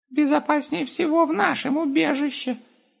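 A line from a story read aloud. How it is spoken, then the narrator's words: Squeaking. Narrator (Russian): пропищал Густав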